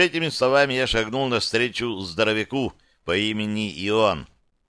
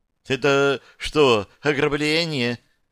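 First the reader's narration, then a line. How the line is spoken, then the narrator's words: Frightened trembling squeak, behind. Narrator (Russian): Дрожащим от страха голосом пропищал, иначе и не скажешь, из-за моей спины Чернов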